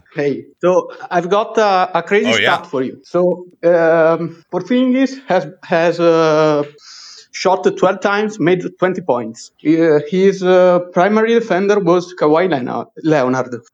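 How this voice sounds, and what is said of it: Italian accent. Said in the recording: “from Italy, so sorry for the accent ... I love Italian accent”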